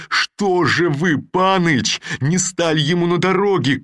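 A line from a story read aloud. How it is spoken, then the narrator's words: Reproachful shout, tongue clicking. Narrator (Russian): крикнул он и укоризненно зачмокал языком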